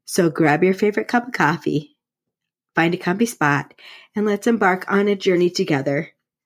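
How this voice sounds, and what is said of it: Sick, unwell-sounding voice. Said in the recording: “I apologize for my voice today because I have been sick for the last couple of days”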